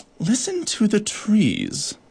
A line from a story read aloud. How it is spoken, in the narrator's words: purred the harlequin beetle